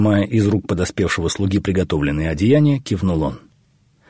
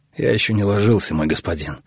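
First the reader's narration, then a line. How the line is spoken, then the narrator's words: Tired. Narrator (Russian): устало ответил Халап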